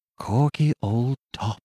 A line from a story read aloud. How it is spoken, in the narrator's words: I whispered faintly